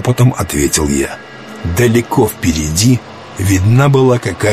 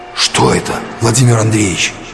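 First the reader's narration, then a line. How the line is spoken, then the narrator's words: Whispered question. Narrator (Russian): шепотом спросил Паша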